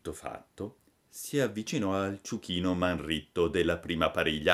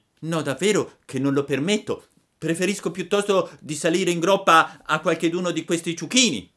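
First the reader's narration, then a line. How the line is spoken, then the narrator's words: Shouting. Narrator (Italian): gridò Pinocchio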